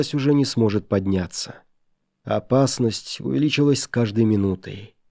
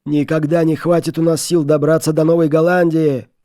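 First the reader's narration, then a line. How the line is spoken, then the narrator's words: Desperate group shouting. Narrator (Russian): кричали бедняги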